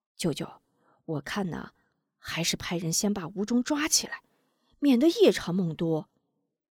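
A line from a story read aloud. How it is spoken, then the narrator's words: Quiet, hushed. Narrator (Chinese): 门霸小声道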